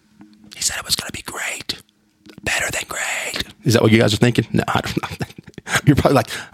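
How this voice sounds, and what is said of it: Whispering. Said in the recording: “why is he whispering? I don't know. I don't know why I'm whispering either.”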